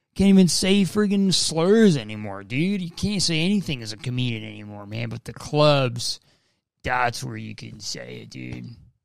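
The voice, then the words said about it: Joe Rogan impression. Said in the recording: “That was my impression of the Roguester. Joe Rogan.”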